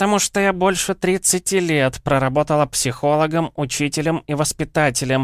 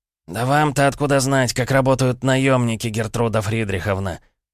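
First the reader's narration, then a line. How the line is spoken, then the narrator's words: Hissed. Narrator (Russian): прошипел Маркелов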